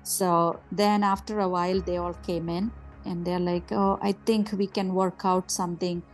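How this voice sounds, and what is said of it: Non-native English accent. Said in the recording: “my English is broken, my accent is bad”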